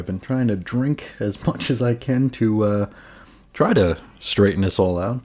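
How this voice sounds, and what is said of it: Slightly hoarse, froggy voice. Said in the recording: “I've got a frog in my throat ... apologies if I sound a little froggy at some points during this episode ... I feel like I got to constantly clear my throat”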